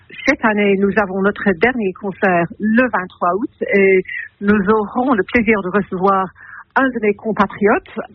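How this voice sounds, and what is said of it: Light English accent in French. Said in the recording (French): “votre joli petit accent anglais”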